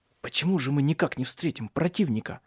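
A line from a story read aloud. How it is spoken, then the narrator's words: Whisper. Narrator (Russian): прошептал Тронт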